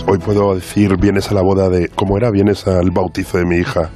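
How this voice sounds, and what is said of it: Hoarse, nearly lost voice. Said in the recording (Spanish): “estoy afónico”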